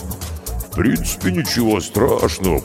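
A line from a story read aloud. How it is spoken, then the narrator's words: Booming drone. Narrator (Russian): прогудел Карков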